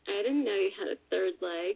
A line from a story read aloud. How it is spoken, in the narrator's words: she moans